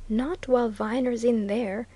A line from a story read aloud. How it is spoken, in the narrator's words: said Millwaters quietly